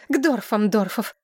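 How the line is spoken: Breathless exhale. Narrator (Russian): выдохнула Иловия

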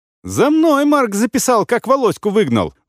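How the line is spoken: Shrill squeal. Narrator (Russian): взвизгнула Сима

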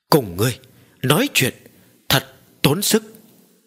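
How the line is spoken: Angry stammering. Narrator (Vietnamese): Ma Viên giận dữ lắp bắp nói

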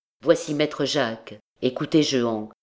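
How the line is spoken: Low voice. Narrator (French): ajouta-t-il à voix basse

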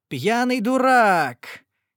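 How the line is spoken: Wild laughter. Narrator (Russian): дико расхохоталась я

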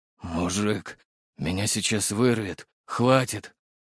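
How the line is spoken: Strained through clenched teeth. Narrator (Russian): С трудом выдавил сквозь зубы

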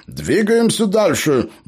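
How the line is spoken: Cheerful report, bearded man. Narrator (Russian): бодро отрапортовал бородатый

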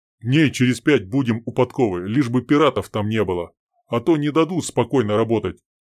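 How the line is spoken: Grumble. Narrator (Russian): проворчал Сергей

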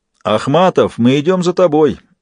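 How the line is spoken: Shout. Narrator (Russian): закинув голову вверх, крикнул Джек

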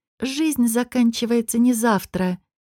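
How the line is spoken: Quiet. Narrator (Russian): тихо сказала Лияна

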